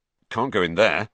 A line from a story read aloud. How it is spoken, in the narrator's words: said Ron gruffly